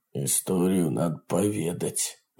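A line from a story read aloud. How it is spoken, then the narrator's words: Grumbled. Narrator (Russian): буркнул он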